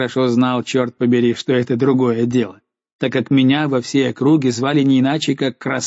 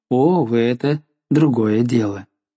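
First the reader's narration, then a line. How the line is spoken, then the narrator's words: Calm. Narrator (Russian): сказала спокойно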